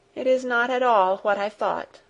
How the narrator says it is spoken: said in a sad, disappointed voice

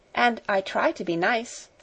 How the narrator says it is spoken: admitted Sara cheerfully

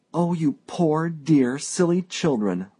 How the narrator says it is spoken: my wife cried

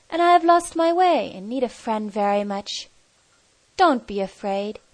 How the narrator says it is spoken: the stranger said kindly

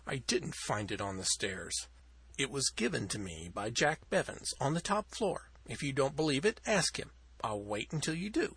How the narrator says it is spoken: he said huskily

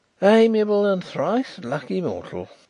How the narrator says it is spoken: sighed Mr

